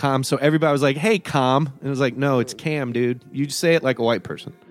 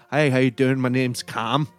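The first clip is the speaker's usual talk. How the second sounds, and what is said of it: Put-on Irish accent. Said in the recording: “he says it in an Irish accent”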